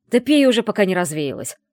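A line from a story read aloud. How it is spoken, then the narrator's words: Sharp scolding shout. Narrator (Russian): прикрикнул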